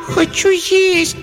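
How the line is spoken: Reproachful squeak. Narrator (Russian): с укором пропищал Эмиль

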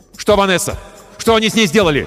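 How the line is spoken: Shouted. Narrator (Russian): крикнул я

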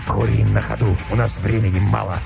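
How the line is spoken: Curt, hoarse. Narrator (Russian): ответил волк отрывисто и хрипло

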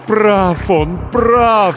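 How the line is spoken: Inner moaning. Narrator (Russian): стонало покойное сердце

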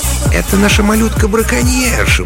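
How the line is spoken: Cooing. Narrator (Russian): проворковал Стэн Бэдж, лесничий Маскела

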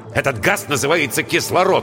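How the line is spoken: Irritated. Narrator (Russian): раздраженно сказал Воронцов

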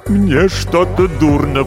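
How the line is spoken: Moaning, writer. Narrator (Russian): простонал писатель

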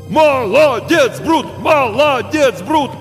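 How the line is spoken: Crowd shouting. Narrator (Russian): снова закричали зрители

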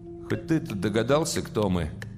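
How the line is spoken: Glum question. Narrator (Russian): спросил Малешкин уныло

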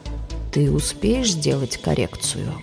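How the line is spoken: Insinuating question. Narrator (Russian): вкрадчиво спрашивает Джав

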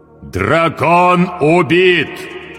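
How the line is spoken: Loud iron proclamation. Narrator (Russian): провозгласил он железным голосом так громко, что услышали все

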